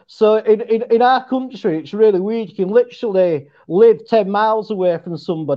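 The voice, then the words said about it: West Yorkshire English accent. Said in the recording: “your accent. Is that as Tooch put up, a Yorkshire accent? ... it is ... I've got like a West Yorkshire accent”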